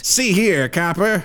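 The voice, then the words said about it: 1950s transatlantic movie accent. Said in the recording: “he's actually playing James Dean as a bat ... Everyone in the 50s sounded like that? ... Transatlantic accent?”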